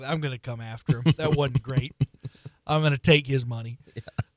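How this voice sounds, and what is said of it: Imitates another person's voice, poorly. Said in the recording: “my terrible Bill Self impression.”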